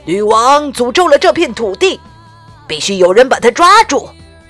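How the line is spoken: Loud address to crowd. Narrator (Chinese): 公爵大声向民众们说

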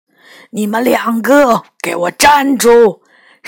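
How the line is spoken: Sudden roar. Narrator (Chinese): 身后突然传来了一声吼声

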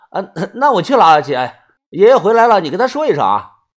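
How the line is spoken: Laughing. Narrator (Chinese): 黑小子笑着说

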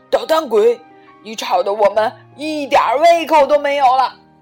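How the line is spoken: Exasperated loud scolding. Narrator (Chinese): 爸爸妈妈受不了了，就大声的训斥他

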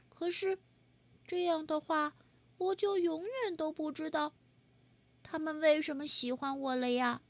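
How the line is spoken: Quiet murmur. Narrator (Chinese): 他小声说

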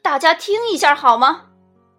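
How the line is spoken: Sudden loud call. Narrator (Chinese): 爸爸突然大声叫道

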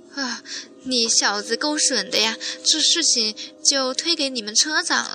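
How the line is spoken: Laughing. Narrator (Chinese): 我笑道

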